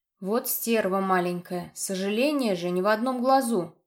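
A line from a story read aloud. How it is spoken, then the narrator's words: Grumbling after coughing. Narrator (Russian): проворчал, откашлившись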